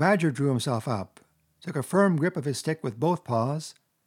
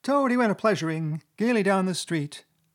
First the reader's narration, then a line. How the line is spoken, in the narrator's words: the chief weasel began in a high, squeaky voice